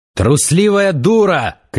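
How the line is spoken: Shouted. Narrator (Russian): крикнул Завулон

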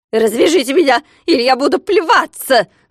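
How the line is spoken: Screaming. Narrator (Russian): завопил Скуперфильд

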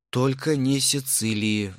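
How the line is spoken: Regretful sigh. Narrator (Russian): вздохнул я, сообразив, что зря разоткровенничался

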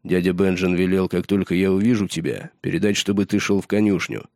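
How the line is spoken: Plain. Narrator (Russian): наконец сказал Роб

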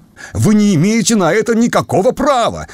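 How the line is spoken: Irritated shouting. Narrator (Russian): раздраженно кричал капитан

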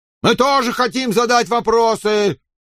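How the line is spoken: Shout from deep in crowd. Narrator (Russian): крикнул кто-то из глубины толпы

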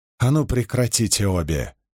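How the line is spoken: Angry grumble. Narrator (Russian): сердито буркнула Эгвейн

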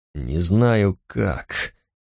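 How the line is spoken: Dull, hollow voice. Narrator (Russian): глухо произнес Эггерт

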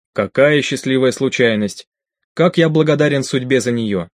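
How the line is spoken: Plain. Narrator (Russian): сказал Браук

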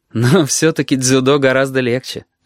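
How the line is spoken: Laughing. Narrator (Russian): рассмеялся он

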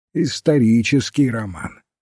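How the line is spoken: Plain. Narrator (Russian): сказал доктор Барнетт

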